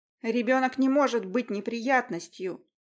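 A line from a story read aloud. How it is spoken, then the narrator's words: Pronouncing solemnly. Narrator (Russian): Изрекла Аня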